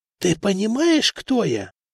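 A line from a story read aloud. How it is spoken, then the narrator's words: Stifled whispered question. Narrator (Russian): придушенно спросил Патрикий, который говорил шепотом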